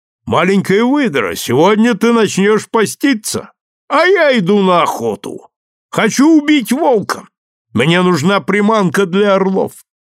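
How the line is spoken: Young man shouting. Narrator (Russian): юноша крикнул мне

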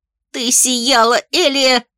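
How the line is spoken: Shrill squeal. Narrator (Russian): Взвизгнула Ри

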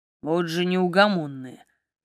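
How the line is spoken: Amused grumble. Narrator (Russian): проворчал Маркус, но я видела, что он не сердится, скорее забавляется

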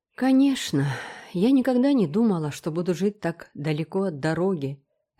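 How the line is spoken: Sighing to herself. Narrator (Russian): вздохнула миссис Рэйчел, обращаясь к себе самой

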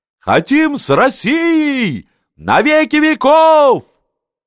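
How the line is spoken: Heartfelt shouting. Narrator (Russian): Они кричали от чистого сердца

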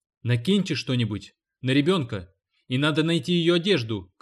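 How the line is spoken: Shouting while running. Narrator (Russian): крикнул Гарп на бегу

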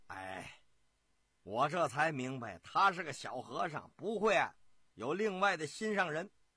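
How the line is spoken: Laughing. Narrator (Chinese): 舅爷张天佑笑

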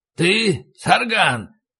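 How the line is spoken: Hoarse voice asking. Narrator (Russian): спросил хриплый голос

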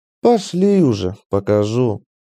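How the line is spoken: Heavy weary sigh. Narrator (Russian): тяжело вздохнула Ланиэль

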